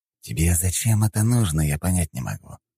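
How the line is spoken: Hissing. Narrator (Russian): прошипел он

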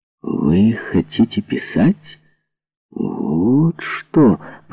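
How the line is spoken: Drawled. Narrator (Russian): протянул он

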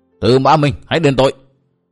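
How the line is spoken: Loud shout from outside. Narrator (Vietnamese): bên ngoài có tiếng hét lớn

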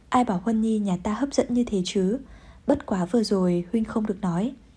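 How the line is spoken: Resigned whisper. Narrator (Vietnamese): vẻ mặt bất đắc dĩ thì thầm

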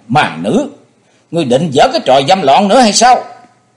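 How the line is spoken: Shouted. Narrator (Vietnamese): Thế Hùng hét lên

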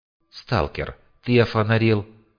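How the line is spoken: Calm, somewhat sad. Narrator (Russian): Спокойно, даже как-то печально, поинтересовался Хори

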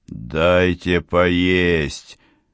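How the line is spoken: Roared. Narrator (Russian): взревел граф

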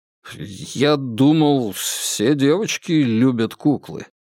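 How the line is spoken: Mumbling. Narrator (Russian): промямлил Шевчук

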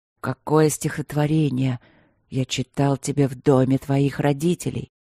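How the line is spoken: Whisper against lips. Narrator (Russian): прошептал ей в губы

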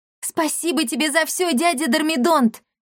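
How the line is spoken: Female shout. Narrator (Russian): крикнула Дарина

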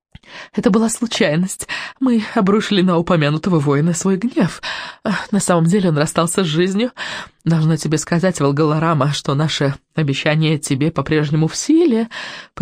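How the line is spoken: Witch's purr. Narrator (Russian): промурлыкала ведьма

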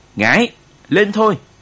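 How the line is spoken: Shouting over battle cries. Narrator (Vietnamese): Anh hét lên trong lúc tiếng hô xung phong của bộ đội ta cũng rền vang trận địa

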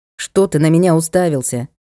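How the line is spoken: Irritated question. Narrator (Russian): раздраженно спросил лорд

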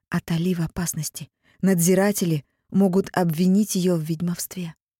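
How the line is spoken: Whisper. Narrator (Russian): я успела прошептать

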